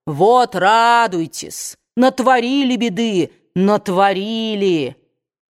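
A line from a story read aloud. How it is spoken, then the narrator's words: Booming voice, repeating. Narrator (Russian): Хью Элсинг громовым голосом снова и снова повторял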